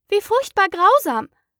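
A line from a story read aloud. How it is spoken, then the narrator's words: Exclaimed. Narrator (German): rief Alice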